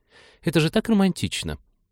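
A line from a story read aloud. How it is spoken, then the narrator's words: Sighing. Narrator (Russian): Сакаев вздохнул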